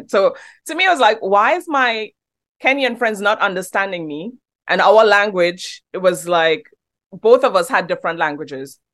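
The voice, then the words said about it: Trinidadian accent. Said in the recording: “When I first came here from Trinidad ... they don't understand my accent ... You have a great accent. It sounds British.”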